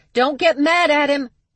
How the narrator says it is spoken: she yelled after him

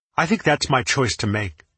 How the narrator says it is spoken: I said hotly

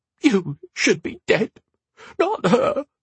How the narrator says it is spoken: she sobbed

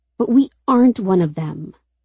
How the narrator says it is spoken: Rose says sharply

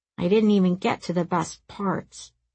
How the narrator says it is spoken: he grumbled

